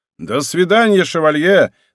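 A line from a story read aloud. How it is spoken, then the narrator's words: Shout. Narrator (Russian): закричал Шатильон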